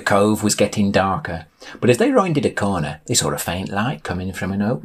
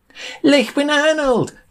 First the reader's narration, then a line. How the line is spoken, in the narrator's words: cried Sam in delight